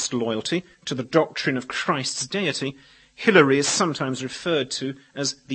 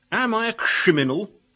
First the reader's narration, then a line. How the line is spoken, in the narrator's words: exclaimed